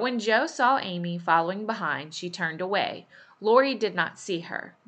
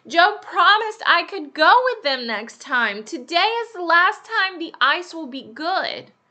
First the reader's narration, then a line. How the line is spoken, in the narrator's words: When Amy heard the noise of the skates, she cried